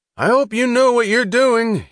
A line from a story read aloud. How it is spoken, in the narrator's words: he cried, his voice half threat, half plea